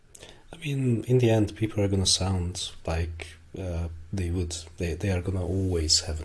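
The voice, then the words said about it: Hungarian-accented English. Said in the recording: “in the end, I'm always gonna sound like I'm a Hungarian”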